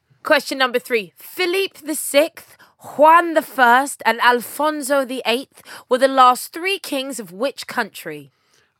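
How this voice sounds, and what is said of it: Put-on accent on royal names. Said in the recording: “I did such a wonderful accent for those names”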